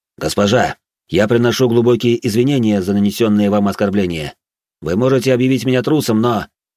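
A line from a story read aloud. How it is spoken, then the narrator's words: Loud public declaration. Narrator (Russian): Эрик громко во всеуслышание произнес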